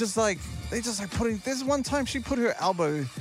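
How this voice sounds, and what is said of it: Usual voice. Nothing is said of it.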